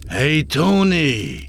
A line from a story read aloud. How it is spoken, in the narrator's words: A shout from the crowd burst through the chattering